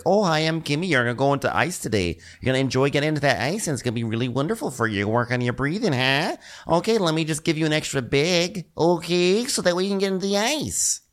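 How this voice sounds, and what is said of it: Imitated cheerful Midwestern accent. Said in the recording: “she did have a very adorable super Midwestern accent.”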